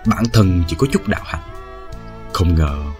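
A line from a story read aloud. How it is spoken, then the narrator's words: Scoffing mutter. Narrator (Vietnamese): Bích Giao hứ một tiếng, lẩm bẩm trong miệng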